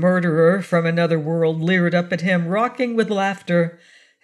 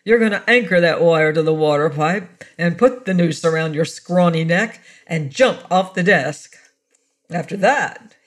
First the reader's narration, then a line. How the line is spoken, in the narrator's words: he laughed again